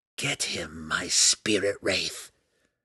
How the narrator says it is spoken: Malice whispered with a sneer

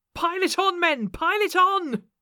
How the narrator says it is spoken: cried Holmes

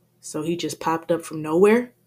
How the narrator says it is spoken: Julio asks sarcastically

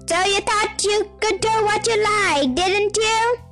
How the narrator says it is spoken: She cried

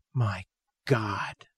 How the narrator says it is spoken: she whispers

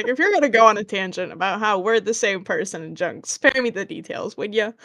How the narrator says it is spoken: She's still laughing

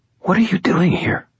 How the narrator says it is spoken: Molly asked me in a half whisper

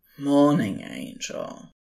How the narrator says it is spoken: he heard a mumbled

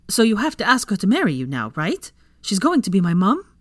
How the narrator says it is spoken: His son asked the question so excitedly

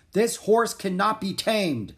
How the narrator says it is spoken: the king shouted at the horse seller

